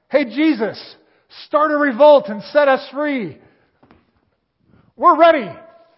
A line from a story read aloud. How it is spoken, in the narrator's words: the Jews just shouted out